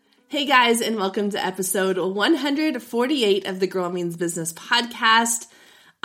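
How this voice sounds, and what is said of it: Husky voice recovering from illness. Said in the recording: “slowly recovering going on week two of post-COVID recovery ... my voice is still not 100% ... my sexy podcast voice”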